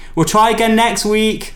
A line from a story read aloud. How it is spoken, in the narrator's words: Lauren shouts after me